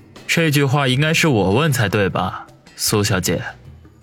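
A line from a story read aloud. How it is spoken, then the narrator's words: Serious low voice. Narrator (Chinese): 王宇脸色一正，沉声的说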